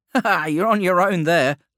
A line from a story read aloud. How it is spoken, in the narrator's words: laughed Morio, the youngest of them all